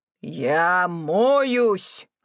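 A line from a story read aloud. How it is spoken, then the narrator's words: Growling. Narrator (Russian): рычал Чо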